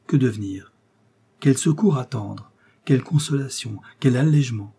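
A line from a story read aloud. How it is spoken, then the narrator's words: Broken, panting, sobbing softly. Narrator (French): Elle restait brisée, haletante, inerte, sanglotant à voix basse et avec des larmes qui coulaient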